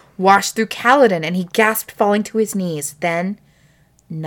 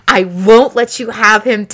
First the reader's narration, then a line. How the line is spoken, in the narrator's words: Dalinar bellowed